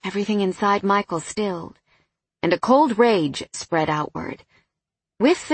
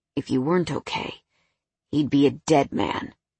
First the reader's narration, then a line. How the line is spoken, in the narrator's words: he growled